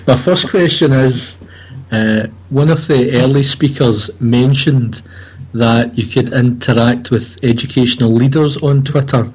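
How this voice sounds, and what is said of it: Scottish accent, voice with a cold. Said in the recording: “I'm a Scot with a Scottish accent and a cold”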